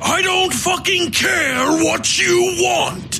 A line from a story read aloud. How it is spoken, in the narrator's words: Tolliver shouted